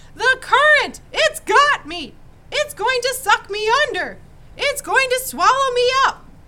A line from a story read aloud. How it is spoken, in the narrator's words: howling